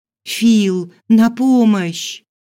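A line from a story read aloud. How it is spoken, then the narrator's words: Terrified scream. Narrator (Russian): От ужаса я закричала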